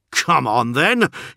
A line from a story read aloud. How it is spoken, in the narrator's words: he snarled